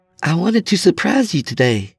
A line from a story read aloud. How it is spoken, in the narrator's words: she exclaimed